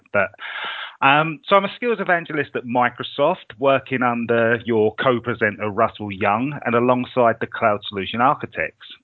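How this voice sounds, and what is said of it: Congested voice from a cold. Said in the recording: “I've got a terrible cold. So if my voice sounds funny, it's because of that.”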